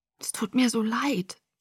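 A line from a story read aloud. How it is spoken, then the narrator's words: Whisper. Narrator (German): flüsterte ich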